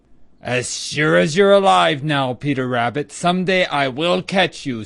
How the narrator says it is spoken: snarled Reddy Fox

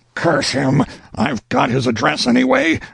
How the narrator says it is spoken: roared Burley inwardly

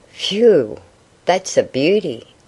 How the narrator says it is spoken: exclaimed Jack

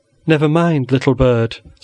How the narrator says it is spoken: said old Ursula, the nurse, soothingly

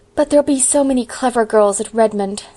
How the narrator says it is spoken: sighed Diana

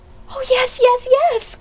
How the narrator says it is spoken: cried Polly in a rapturous shout

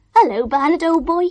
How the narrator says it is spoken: he cried

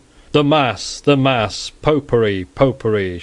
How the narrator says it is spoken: shouted the people

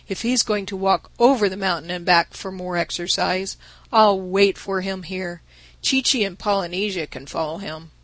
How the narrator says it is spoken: said Bumpo, sitting down wearily

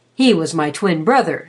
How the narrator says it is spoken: said, puffing at his pipe cheerfully

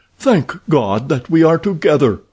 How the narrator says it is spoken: he cried

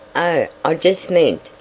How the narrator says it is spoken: he stammered

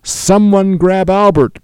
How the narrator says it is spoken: cried the steward

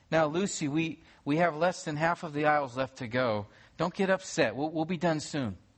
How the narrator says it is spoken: her mother said gently to her

